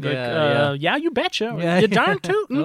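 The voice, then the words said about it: Chipper put-on Minnesotan accent. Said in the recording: “the Minnesotan accent, which is a bit Swedish, a bit Norse ... It's just so chipper”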